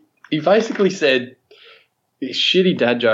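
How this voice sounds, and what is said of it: Usual voice. Nothing is said of it.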